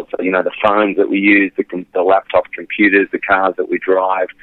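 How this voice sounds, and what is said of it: Australian English accent. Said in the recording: “I was in Australia, as you can tell, the accent is not mm. ... American.”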